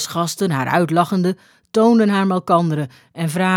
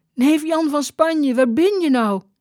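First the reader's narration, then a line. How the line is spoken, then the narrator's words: Calling out. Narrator (Dutch): riep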